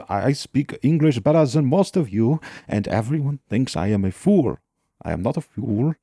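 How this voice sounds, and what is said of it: Accented character voice. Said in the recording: “Everyone seems to take me as a fool just because of my accents.”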